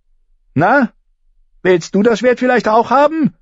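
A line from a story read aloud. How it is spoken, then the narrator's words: Shouting. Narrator (German): schrie sie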